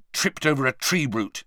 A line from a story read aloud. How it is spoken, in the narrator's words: said angrily